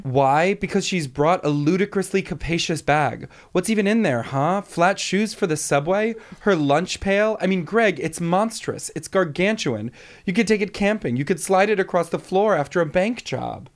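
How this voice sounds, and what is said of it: Impression of Tom from Succession. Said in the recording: “I really want to be able to do an impression of him, but I don't think I can.”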